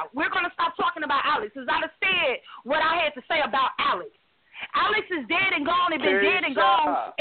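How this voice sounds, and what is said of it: Yelling loudly. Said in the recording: “You got to stop yelling, baby. We can hear you perfect. You just got to stop yelling.”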